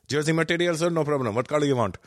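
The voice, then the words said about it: Put-on Indian accent. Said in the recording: “picking up the Indian accent”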